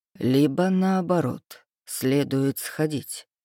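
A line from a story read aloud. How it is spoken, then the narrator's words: Conspiratorial tone. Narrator (Russian): произнес он почти конспираторским тоном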